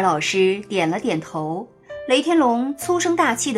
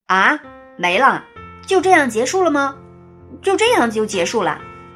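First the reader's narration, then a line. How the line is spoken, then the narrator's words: Gruff loud question. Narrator (Chinese): 雷天龙粗着嗓子大声问道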